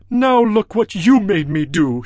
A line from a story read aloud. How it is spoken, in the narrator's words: he said